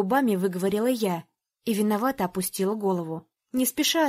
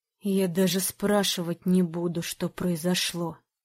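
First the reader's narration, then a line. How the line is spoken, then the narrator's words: Hiss. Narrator (Russian): прошипел он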